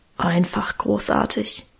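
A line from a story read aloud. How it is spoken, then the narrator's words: Reverent grumbling mutter. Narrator (German): brummelte Guste andächtig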